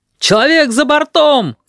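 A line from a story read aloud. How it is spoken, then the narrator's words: Shout. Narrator (Russian): крикнул кто-то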